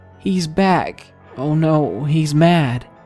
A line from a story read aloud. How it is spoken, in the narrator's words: my cousin begins to tremble in terror, and he whimpers